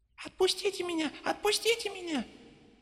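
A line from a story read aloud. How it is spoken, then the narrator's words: Desperate squeal, toy bear. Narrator (Russian): в отчаянии взвизгнул плюшевый мишка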